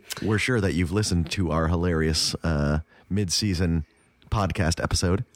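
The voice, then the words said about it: Deep, hoarse sick voice. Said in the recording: “I'm under the weather ... my voice has a deep, sultry tone to it. That is because I have coughed myself silly ... My voice just sounds weird.”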